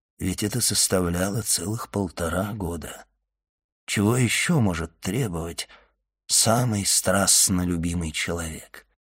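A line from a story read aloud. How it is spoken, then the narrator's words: Quiet, under breath. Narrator (Russian): тихо прибавил про себя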